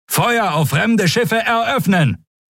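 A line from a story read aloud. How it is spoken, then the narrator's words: Shouted command. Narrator (German): rief er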